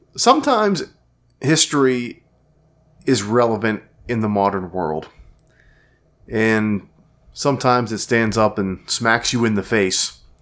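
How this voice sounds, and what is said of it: Sounds sick, under the weather. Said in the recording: “as you can tell by my voice, I'm myself a little under the weather”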